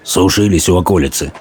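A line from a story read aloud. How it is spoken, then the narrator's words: Gruff mutter. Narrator (Russian): буркнул солдат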